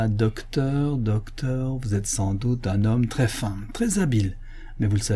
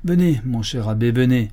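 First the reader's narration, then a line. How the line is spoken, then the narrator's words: Exasperated exclamation. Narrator (French): s'écria le chanoine, pâle et exaspéré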